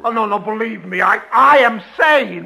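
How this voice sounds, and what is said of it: Loud shouting. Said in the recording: “Why shout? ... But you were shouting rather loudly.”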